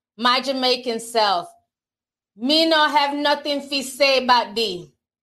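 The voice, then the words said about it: Poor put-on Jamaican accent. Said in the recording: “I know my Jamaican accent is horrible.”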